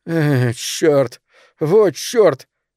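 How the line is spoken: Loud sob. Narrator (Russian): Билли громко всхлипнул

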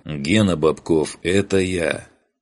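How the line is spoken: Breathless. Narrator (Russian): выдохнул

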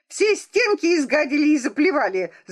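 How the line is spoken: Shout. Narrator (Russian): закричала она

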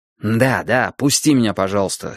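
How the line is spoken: Angry. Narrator (Russian): сердито сказал

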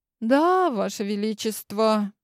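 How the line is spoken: Sad reply. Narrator (Russian): печально ответила я

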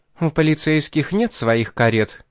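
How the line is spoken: Snapping retort. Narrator (Russian): огрызнулась Шарлотта

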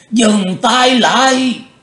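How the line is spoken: Sudden yell. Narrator (Vietnamese): Lão quái bỗng hét lên

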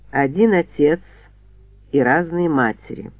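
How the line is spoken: Tired explanation. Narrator (Russian): устало пояснил Линкольн

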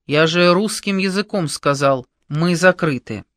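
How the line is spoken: Stern repetition. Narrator (Russian): Кручина строгим голосом повторил

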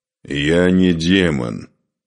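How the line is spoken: Growled. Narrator (Russian): прорычал Духарев

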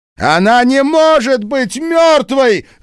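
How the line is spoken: Screaming. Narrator (Russian): завопила Энни Уилкс

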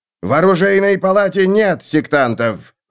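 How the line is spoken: Roaring. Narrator (Russian): взревел Грот

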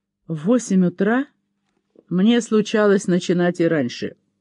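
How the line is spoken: Grumbling. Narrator (Russian): пробурчал он

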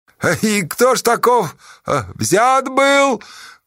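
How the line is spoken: Shout from the crowd. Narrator (Russian): выкрикнули из народа

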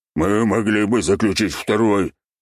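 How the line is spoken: Gruff grumble. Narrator (Russian): буркнул гном

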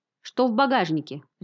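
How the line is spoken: Barking. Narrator (Russian): рявкнул он

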